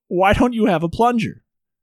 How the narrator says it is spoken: He yells

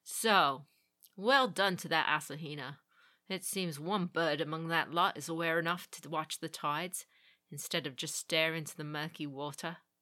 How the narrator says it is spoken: he chuckled

